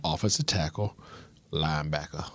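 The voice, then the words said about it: Put-on Southern gentleman accent. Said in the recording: “What was that accent? ... Was that the Bayou Molasses? ... A full on Southern gentleman right there.”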